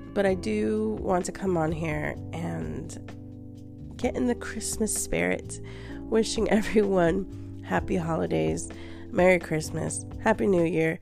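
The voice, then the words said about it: Sick, unwell-sounding voice. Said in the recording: “As you can probably hear it in my voice, I apologize if it sounds really bad, because I'm sick”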